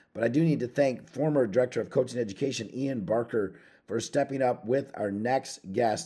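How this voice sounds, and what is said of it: Hoarse, worn-out voice. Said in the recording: “As you can hear from my voice, my voice has taken a turn for the worse”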